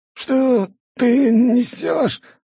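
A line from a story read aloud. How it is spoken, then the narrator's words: Hoarse, strained. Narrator (Russian): прохрипел чиновник, с трудом поднимаясь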